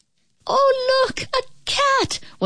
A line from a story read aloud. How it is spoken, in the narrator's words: one of the children cried out